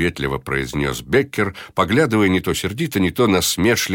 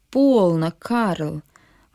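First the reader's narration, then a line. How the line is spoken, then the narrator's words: Strained placating objection. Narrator (Russian): возразил Эдвардс задобривающим голосом, и видно было, что требовалось на это с его стороны некоторое усилие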